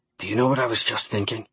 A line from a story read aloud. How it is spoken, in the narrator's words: he said, his voice barely more than a whisper